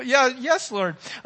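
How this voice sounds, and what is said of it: Squeaky, timid voice. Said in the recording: “I'll have my squeaky voice... My squeaky voice”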